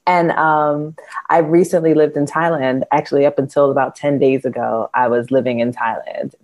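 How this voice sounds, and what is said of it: American East Coast accent. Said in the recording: “as you can tell by my accent, I did not grow up here. I grew up on the East Coast in the U.S. ... a Jersey girl, New York girl”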